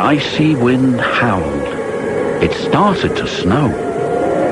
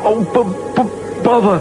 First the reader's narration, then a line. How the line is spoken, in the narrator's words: Percy stuttered, but it didn't sound like Percy